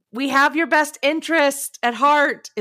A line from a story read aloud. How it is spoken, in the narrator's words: adults had to yell at me